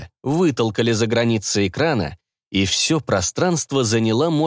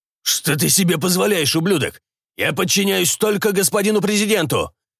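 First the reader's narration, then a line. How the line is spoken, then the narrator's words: Barked defiantly. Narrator (Russian): рявкнул генерал, не желая выполнять указания мелкой сошки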